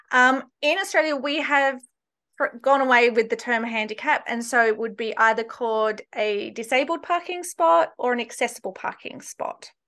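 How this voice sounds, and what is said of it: Australian accent. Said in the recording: “I'm originally from Australia, just in case people can't place my accent.”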